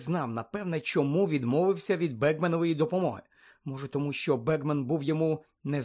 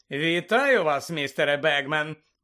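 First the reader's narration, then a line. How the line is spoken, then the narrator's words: Cheerful. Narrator (Ukrainian): весело сказав Фред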